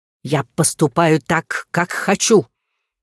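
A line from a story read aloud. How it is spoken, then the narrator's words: Angry dragon bark. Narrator (Russian): Зло рявкнув, дракон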